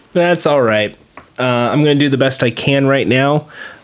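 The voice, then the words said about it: Quiet, sick-sounding voice. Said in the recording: “My voice is fucked up. I, I I sound like I'm sick, but I'm not. I sound like I have to have a, like a like a quiet voice when I shouldn't.”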